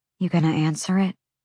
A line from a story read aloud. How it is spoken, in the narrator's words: Bryce asked quietly